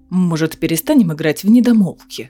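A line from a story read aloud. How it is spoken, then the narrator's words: Snort. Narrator (Russian): фыркнул Фенрис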